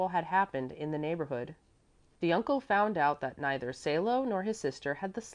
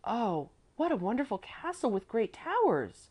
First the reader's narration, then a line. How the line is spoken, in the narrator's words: Salo exclaimed